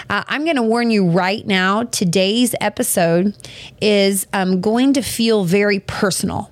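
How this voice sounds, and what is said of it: Scratchy, worn-out voice. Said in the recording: “I got that old scratchy post-retreat voice ... my voice is about to go out”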